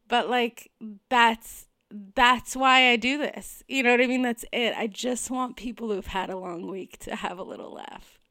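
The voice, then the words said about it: Tearful, emotional voice. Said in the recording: “getting emotional ... I can't believe I'm crying.”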